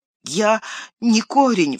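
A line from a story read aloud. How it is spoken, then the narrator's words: Sobbing. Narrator (Russian): всхлипнул Мэри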